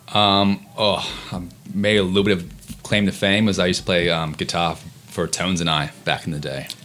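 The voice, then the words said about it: American accent. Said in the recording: “the American accent”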